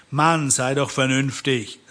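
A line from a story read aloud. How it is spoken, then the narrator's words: Plain. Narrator (German): sagte Biff endlich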